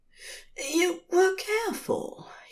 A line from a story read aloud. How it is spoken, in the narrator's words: he's mumbling in between kisses